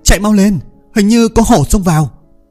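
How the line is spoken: Loud shout. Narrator (Vietnamese): tiếng của Vương Mộc Dương hét lớn

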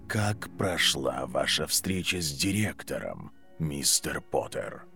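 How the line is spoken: Quiet question. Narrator (Russian): Тихо спросил профессор защиты

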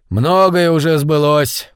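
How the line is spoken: Sorcerer grumbling. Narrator (Russian): проворчал чародей

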